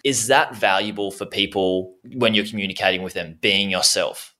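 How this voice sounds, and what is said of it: Australian accent. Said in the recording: “saying all these different things that we say in Australia... I used to even change my tone and try to not have as much accent, but now I'm really harnessing it.”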